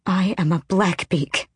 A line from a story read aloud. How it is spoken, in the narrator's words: Elide breathed